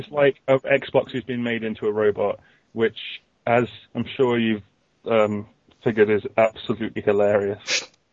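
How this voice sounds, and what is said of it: Sarcastic delivery. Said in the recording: “We're being sarcastic, right?”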